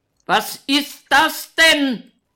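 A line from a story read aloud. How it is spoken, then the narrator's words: Excessively loud shouting. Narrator (German): schreit er überlaut, obwohl Elena ihm direkt gegenübersteht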